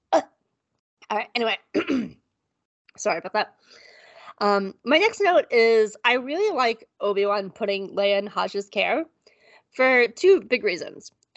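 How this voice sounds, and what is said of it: Hoarse, strained voice. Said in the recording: “losing my voice ... is the allergies”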